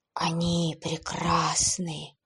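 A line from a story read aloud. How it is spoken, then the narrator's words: Young man's delighted whisper. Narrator (Russian): восторженно прошептал парень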